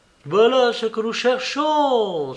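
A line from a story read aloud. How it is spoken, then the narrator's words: Exclamation. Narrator (French): s'écria Holmes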